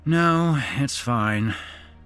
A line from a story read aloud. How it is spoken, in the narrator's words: Matt sighed